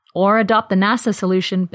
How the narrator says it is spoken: Bill said

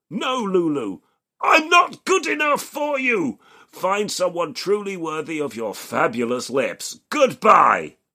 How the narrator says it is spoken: Dickering shouts

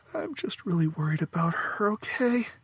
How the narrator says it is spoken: After sobbing softly for a moment, Faith admitted

